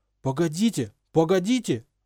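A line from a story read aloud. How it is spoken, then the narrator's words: Desperate shout. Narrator (Russian): отчаянно закричал Рон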